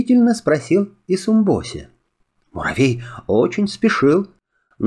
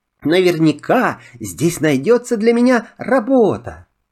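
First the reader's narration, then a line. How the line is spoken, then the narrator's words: Shouted. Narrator (Russian): закричал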